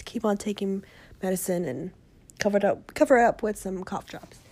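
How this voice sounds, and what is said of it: Hoarse, rough, fading voice. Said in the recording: “lost my voice ... i'm losing my voice ... the throat's a little rough”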